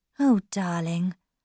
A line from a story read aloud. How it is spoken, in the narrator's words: said, sadly